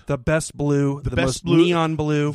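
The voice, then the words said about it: Imitates another person's voice. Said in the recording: “I'm doing Donald Trump right now”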